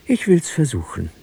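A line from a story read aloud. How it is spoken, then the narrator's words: Sigh. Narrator (German): seufzte sie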